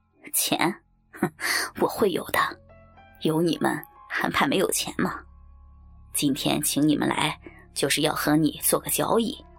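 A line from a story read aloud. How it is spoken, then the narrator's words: Sly chuckle. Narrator (Chinese): 王仁嘿嘿一笑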